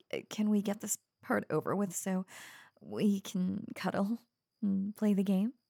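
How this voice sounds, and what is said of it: Usual voice. Nothing is said of it.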